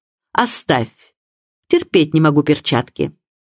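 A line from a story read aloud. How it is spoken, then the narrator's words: Sharp tone. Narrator (Russian): резким тоном бросив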